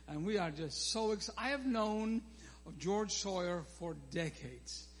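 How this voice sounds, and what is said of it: Scottish accent. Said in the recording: “I don't speak like him. I speak properly. ... I am Scottish”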